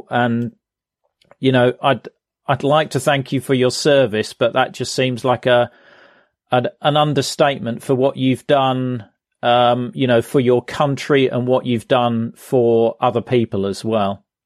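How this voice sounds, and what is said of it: British accent. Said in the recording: “someone with a British accent”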